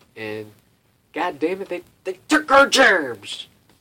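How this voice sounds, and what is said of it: Poor imitation of a cartoon character. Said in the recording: “If you ever seen that South Park, I did like a terrible impression”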